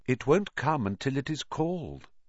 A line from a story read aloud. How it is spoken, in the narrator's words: said Riddle calmly